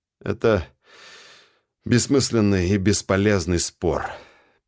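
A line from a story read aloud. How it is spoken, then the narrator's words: Sad sigh. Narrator (Russian): печально вздохнул я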